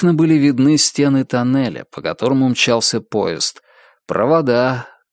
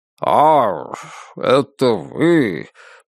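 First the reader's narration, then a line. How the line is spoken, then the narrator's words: Drawn out. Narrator (Russian): протянул он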